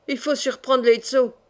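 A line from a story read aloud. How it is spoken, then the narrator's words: Growling. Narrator (French): gronda Haïgoun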